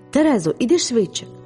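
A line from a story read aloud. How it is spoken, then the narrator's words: Tearful exclamation. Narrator (Ukrainian): вигукнула я зі слізьми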